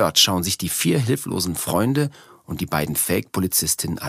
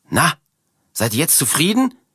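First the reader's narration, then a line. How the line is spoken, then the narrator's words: Shouting at someone. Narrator (German): schreit Martha die beiden Fremden an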